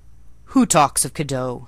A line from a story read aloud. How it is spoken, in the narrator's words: he said gruffly